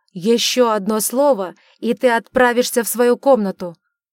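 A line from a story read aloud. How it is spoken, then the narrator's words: Furious roar. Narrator (Russian): взревел Эджмонт, кипя от гнева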